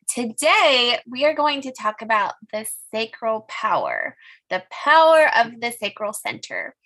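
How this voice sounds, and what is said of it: Scratchy-throated voice. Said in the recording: “I'm hoping my voice keeps up with me today. I've had a bit of a scratchy throat”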